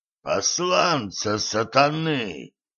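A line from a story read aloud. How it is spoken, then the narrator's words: Hoarse wheeze. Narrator (Russian): просипел незнакомец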